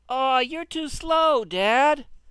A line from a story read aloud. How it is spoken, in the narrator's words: the boy whined